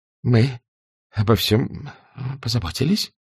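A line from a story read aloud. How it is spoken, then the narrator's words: Halting, strained speech. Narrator (Russian): Запинаясь, словно ей трудно было говорить, сказала война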